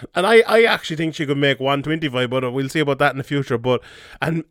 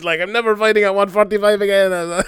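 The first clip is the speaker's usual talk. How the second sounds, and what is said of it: Imitates another person's accent. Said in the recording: “I did a George St. Pierre accent there”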